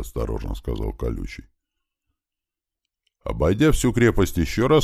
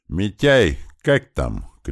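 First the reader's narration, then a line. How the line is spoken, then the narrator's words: Shout. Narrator (Russian): крикнул Туман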